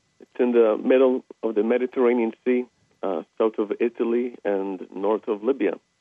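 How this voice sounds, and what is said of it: Maltese accent. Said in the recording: “recognize the accent”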